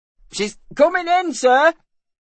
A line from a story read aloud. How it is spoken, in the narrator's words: shouted the falconer